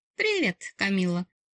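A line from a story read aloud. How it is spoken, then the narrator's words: Overly cheerful blurt. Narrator (Russian): слишком радостно выпалила нежданная гостья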